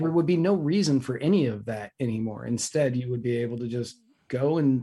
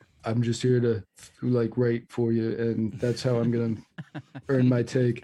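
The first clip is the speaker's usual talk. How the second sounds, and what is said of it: Imitates another person's voice. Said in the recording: “That's a good Bernie Sanders impression.”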